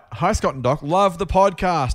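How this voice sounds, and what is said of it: Reads words out loudly. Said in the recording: “In capitals, that's why I said it loudly.”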